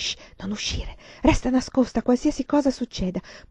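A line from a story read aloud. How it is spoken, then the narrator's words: Mother whispering. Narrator (Italian): mia madre sussurrare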